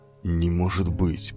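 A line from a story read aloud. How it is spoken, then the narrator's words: Stunned muttering. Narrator (Russian): потрясенно бормотал Иолай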